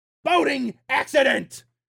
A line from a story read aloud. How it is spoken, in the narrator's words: shouts